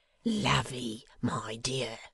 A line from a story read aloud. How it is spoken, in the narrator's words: whispered Dennis